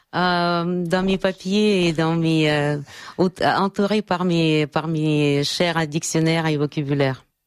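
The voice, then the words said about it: Charming foreign accent in French. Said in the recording (French): “votre accent est charmant ... vous avez une voix charmante. Toute voix, tout accent étranger est charmant.”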